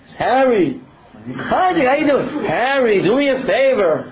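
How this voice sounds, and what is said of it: Put-on Yiddish accent. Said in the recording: “it's a very funny Yiddish accent, right? ... Am I good at that? Not good enough?”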